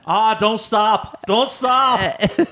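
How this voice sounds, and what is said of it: Bad put-on New England accent. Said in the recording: “Horrible New England accent”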